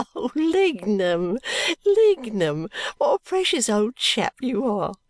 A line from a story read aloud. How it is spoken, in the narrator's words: Bagnet cannot help laughing in her airy way and saying